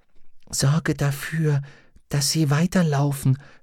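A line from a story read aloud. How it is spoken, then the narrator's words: Whispered reply. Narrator (German): flüsterte zurück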